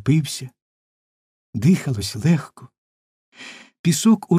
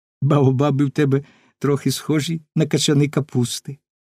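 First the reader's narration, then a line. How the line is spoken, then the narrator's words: Laughing. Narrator (Ukrainian): Маленький принц засміявся і сказав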